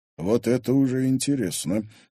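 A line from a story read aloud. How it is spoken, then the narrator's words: Quiet mutter. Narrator (Russian): тихо буркнул Егор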